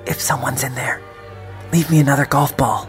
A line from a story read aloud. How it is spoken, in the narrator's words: whispered